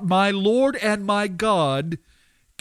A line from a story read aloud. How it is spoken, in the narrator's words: Thomas the doubter ... cried out